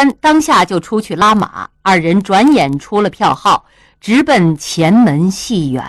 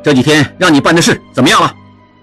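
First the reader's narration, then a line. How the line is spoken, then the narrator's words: Angry. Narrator (Chinese): 应季怒冲冲地说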